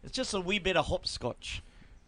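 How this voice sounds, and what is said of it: Bad put-on accent. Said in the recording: “The accent is so bad.”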